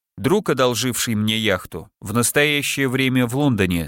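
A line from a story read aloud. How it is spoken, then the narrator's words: Plain. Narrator (Russian): сказал он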